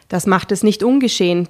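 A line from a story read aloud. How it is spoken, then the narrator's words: Calm policewoman. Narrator (German): blieb die Polizistin ruhig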